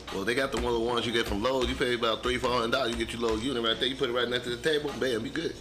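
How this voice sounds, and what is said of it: Southern Louisiana accent. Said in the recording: “Why are you talking like that? ... That's my Southern Louisiana accent”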